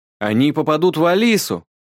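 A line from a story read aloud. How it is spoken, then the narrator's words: Sudden worried yell. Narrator (Russian): Заорал вдруг Леон, непонятно почему заволновавшийся из-за меня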